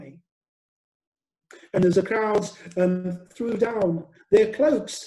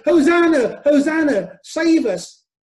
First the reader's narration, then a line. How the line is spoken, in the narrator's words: shouting